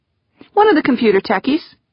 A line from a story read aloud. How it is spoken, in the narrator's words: Wonderly replied cheerfully